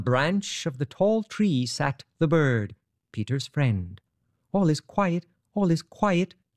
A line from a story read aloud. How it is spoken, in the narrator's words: chirped the bird merrily